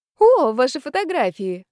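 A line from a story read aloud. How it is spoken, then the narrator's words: Exclaiming. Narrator (Russian): воскликнула Люся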